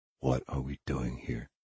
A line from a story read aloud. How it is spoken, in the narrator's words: Vigil whispered